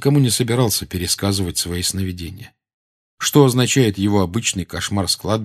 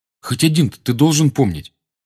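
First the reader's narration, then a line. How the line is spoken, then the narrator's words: Irritated reply. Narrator (Russian): раздраженно отозвался Гарри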